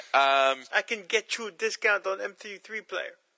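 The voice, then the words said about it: Put-on accent of unclear origin. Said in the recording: “I'm not sure what that accent is I'm doing”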